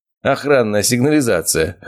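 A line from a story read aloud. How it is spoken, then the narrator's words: Chuckling. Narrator (Russian): хохотнул Илья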